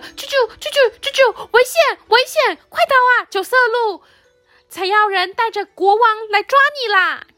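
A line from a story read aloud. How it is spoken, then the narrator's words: Loud shout. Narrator (Chinese): 我大声叫着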